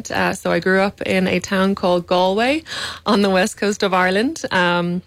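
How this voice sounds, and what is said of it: Slight Irish accent. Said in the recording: “you have a bit of an accent ... I have a little bit of an accent.”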